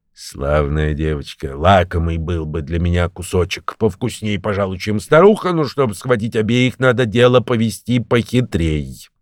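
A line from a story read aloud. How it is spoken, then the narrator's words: Muttered. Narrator (Russian): пробормотал волк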